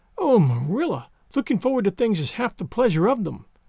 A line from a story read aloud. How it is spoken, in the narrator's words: exclaimed Anne